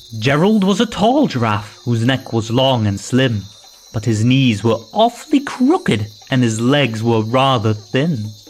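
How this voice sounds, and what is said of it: Put-on Scottish accent. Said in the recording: “With a Scottish accent, I think.”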